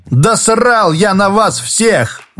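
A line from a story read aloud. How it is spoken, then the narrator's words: Furious shout. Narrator (Russian): выкрикнул Шорохов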